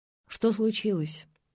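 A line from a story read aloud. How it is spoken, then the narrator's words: Breathless. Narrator (Russian): выдохнула она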